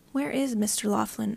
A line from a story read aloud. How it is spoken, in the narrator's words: Oren asked, his tone conversational